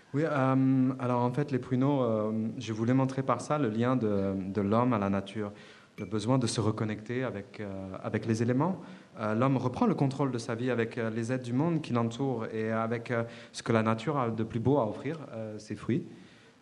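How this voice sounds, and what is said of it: Light foreign accent. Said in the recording (French): “ce léger accent”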